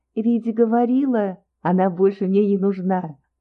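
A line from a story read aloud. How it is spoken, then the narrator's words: Laughing reply. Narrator (Russian): засмеялась в ответ Настя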